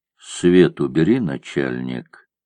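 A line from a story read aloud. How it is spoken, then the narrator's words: Quiet. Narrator (Russian): Он сказал негромко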